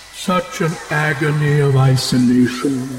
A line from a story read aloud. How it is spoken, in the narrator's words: moaned